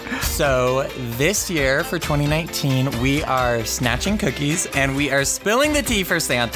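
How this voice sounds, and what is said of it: Sensual radio announcer voice. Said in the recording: “my sensual radio voice”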